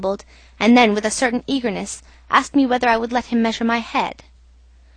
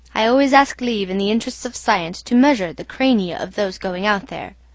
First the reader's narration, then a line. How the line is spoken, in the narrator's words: he said